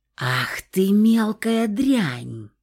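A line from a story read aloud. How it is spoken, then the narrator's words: Hissing, furious woman. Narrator (Russian): зашипела эта Мегера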